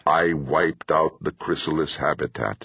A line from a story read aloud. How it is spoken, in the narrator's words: Dorn said, his voice flat, emotionless